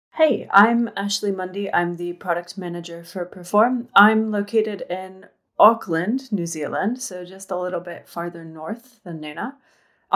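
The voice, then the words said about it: American accent. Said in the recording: “I'm originally from Florida in the US, though, hence the accent.”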